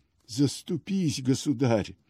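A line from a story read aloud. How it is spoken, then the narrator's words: Old man's hoarse voice. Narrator (Russian): Старик сиплым голосом произнес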